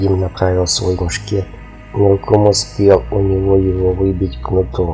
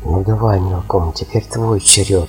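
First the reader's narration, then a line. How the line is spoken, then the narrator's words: Whisper. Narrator (Russian): шепнул астролог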